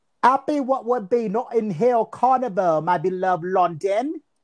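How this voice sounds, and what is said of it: Put-on accent. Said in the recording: “in that wonderful accent”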